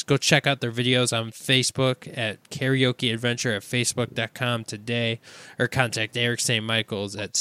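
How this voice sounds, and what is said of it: Strained, worn-out hoarse voice. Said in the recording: “I can't do it. My voice is just shot.”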